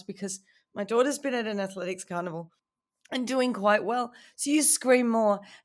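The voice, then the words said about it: Hoarse, strained, fading voice. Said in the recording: “I'm losing my voice. As you can hear, I've been losing it for 2 days, and now I've been screaming for the last 2 hours”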